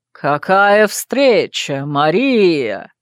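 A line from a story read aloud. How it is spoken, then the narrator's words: Drawled, familiar voice. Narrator (Russian): Протянул знакомый голос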